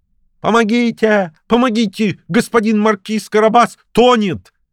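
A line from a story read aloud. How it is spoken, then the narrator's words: Sudden cry. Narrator (Russian): Вдруг кот как закричит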